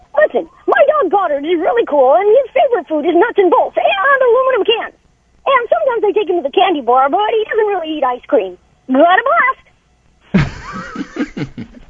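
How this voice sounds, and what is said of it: Jimmy Neutron character voice. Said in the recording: “do the voice for us? ... in Jimmy Neutron ... voice”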